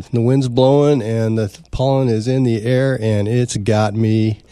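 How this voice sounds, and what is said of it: Congested voice, sounds like a cold. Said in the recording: “If I sound like I have a cold”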